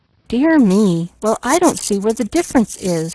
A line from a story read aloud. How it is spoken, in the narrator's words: sighed Pollyanna